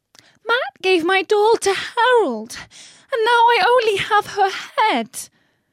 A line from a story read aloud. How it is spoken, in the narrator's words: said, moaning with tears